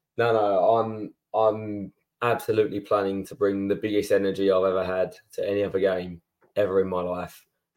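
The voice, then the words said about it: Strained, hoarse voice. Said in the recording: “my voice is struggling from shouting on Wednesday. I think that was a bit too screechy”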